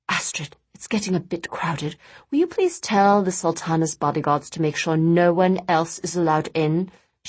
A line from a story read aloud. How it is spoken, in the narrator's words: she whispered to her niece